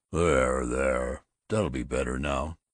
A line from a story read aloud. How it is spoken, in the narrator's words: the old friendliness was in his voice rumbling